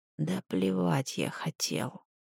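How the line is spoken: Barely audible. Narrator (Russian): едва слышно произнес Крис

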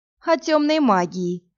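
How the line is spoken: Mocking. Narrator (Russian): насмешливо произнес Герион

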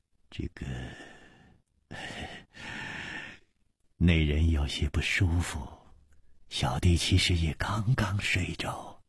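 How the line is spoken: Sighing. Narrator (Chinese): 李玉涵 也叹了一口气说

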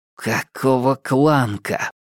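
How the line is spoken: Whisper. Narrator (Russian): прошептал Минхо

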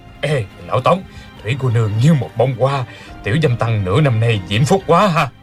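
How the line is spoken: Low, laughing voice. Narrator (Vietnamese): Người kia hạ giọng cười nói

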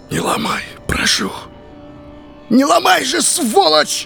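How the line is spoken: Sudden furious shout. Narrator (Russian): закричал вдруг яростно

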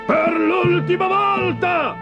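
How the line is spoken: Shouting. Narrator (Italian): urlò

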